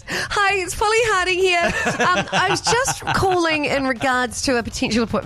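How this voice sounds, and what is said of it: Professional voicemail voice. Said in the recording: “put on my professional voice. It's like a totally different sound.”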